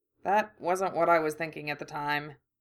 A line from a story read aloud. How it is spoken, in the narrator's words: Harry muttered